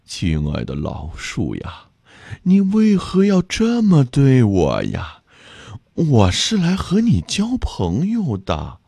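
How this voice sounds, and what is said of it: Weak, frail pleading voice. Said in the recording (Chinese): “用脆弱的声音说”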